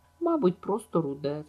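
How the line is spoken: Laughing. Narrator (Ukrainian): засміялася Енн

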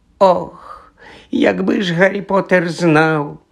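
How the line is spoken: Hoarse, tearful. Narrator (Ukrainian): прохрипів Доббі, і на його пошарпану наволочку потекли сльози

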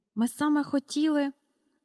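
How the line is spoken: Frightened whisper. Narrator (Ukrainian): злякано прошепотіла міс Енні

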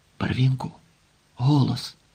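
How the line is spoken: Whispered command. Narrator (Ukrainian): пошепки наказав

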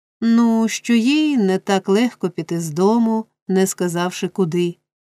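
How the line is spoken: Plain. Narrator (Ukrainian): відповів Ной

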